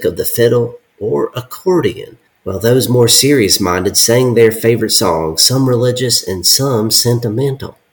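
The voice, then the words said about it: Put-on Southern belle accent. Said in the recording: “like some like fainting Southern belle ... that accent”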